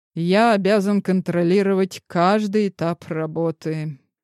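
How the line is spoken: Sighing. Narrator (Russian): вздохнул

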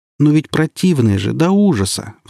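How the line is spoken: Pleading. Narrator (Russian): взмолился Сережка

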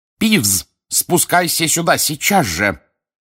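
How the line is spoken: Fierce bark. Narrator (Russian): рявкнула профессор МакГонагал, свирепо глядя вверх

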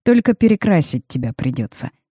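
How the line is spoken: Amused snort. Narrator (Russian): хмыкнул Родерик

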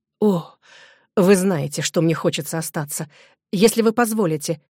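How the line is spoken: Exclaiming. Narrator (Russian): воскликнул Робер

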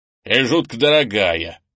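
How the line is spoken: Grumbling. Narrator (Russian): проворчал Крис

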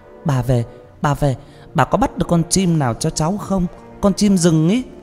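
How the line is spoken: Excited child's cry. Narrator (Vietnamese): một cái thân người nhỏ thó reo lên

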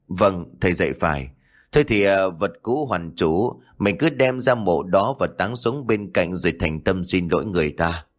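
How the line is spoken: Sighing. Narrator (Vietnamese): Ông Khoai thở dài

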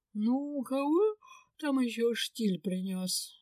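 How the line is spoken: Sleepy grumble. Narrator (Russian): сонно проворчала Линда

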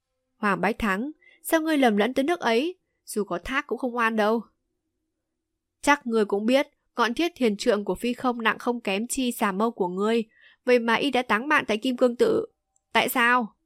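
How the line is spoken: Loud laughing. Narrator (Vietnamese): Chu Đức Kiệt cười lớn

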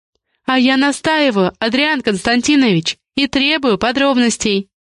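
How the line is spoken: Sly laugh. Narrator (Russian): коварно рассмеялась Раиса

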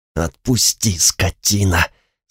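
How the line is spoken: Trembling whisper. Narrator (Russian): сказал я шепотом, пытаясь сладить с дрожью

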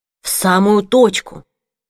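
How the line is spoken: Approving whisper through hall. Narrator (Russian): по залу собраний пробежал одобрительный шепот

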